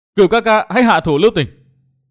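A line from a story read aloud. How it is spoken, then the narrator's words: Terrified scream, small figure. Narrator (Vietnamese): một chiếc bóng nhỏ thó thét kinh hoàng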